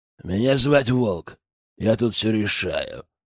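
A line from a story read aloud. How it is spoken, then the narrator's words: Menacing growl. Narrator (Russian): прорычал грозно браконьер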